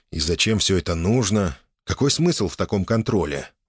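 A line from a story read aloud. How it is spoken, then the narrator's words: Sighing while walking faster. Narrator (Russian): вздохнул я, прибавляя ходу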